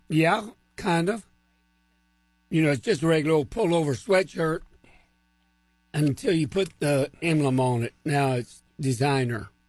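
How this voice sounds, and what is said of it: Hoarse, weak, nearly lost voice. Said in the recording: “apologize for my voice. It's the best I can do. I've been fighting his allergies for a week... It's just no voice.”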